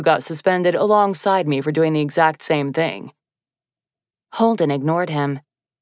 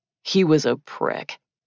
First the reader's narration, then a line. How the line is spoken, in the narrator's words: Adam muttered